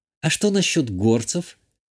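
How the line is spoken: Barely audible question. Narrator (Russian): чуть слышно спросила Иштания

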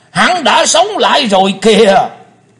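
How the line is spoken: Thunderous echoing shout. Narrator (Vietnamese): Tiếng quát chấn động cả mặt sân tràng, vang dội cả không gian

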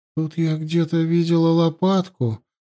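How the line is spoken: Sleepy murmur. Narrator (Russian): сонно проговорила

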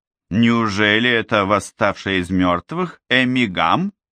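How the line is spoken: Drawled. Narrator (Russian): протянула Мэдисон

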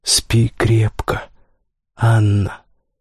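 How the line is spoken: Whispered. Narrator (Russian): шептала

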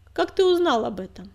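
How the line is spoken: Cold question. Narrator (Russian): холодно спросила

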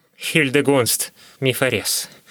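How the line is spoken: Wheezing. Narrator (Russian): просипел Гольга

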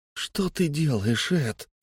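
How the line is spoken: Quiet wail. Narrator (Russian): тихо взвыл Фари

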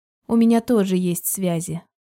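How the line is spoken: Calm. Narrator (Russian): спокойно ответила я

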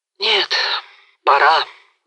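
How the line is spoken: Sad sigh. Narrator (Russian): вздохнул грустно Мазепа

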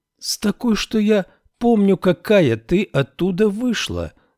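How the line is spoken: Exclaiming. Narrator (Russian): воскликнула Феба

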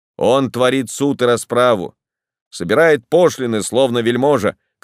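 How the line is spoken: Sentry shouting. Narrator (Russian): крикнул один из часовых

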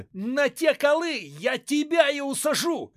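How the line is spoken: Furious spluttering shout. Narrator (Russian): кричал Куракин, брызжа слюной

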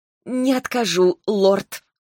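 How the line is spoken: Forced out reluctantly. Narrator (Russian): выдавила я

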